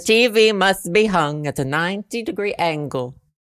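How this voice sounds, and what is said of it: Put-on unidentifiable accent. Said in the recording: “I don't know what accent that is”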